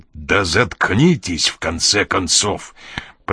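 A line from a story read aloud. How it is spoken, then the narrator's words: Growling. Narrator (Russian): прорычал Коридон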